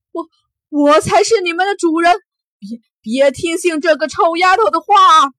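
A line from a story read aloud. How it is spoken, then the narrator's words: Shocked stammering cry. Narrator (Chinese): 瞪大双眸，他叫出声来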